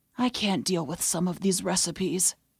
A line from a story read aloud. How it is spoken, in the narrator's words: Tosh said weakly